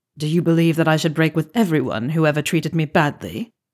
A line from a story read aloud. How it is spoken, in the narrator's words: asked Snape sharply